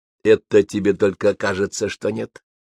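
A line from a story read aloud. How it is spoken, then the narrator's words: Soft. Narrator (Russian): мягко сказал Митя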